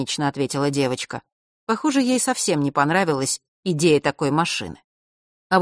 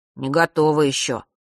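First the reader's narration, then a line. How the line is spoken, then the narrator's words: Grumbling. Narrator (Russian): пробурчал он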